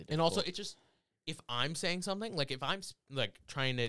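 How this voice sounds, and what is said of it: Speaking in an unexpected accent. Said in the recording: “I don't know where that accent came from.”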